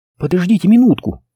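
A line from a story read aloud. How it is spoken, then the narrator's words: Excited exclamation. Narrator (Russian): взволнованно воскликнула Джен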